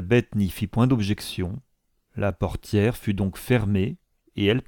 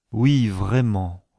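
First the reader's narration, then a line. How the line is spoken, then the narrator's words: Said with a sigh. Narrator (French): dit sa compagne en soupirant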